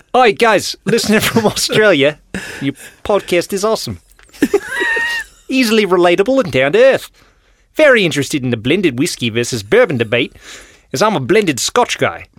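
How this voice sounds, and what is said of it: Put-on Australian accent. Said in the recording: “Can you do it in an Australian accent?”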